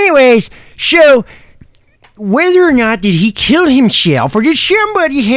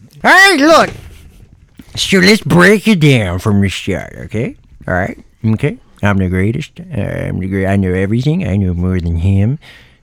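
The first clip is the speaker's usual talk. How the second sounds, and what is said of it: Imitates another person's voice. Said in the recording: “my Trump impersonation ... That was pretty spot on.”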